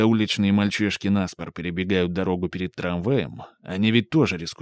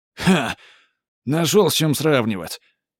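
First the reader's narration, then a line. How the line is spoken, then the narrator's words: Angry huffing. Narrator (Russian): Хавьер сердито засопел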